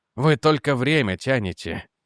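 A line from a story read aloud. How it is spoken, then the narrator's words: Sighing. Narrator (Russian): вздохнул Реджи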